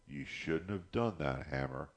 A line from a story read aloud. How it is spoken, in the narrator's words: she said quietly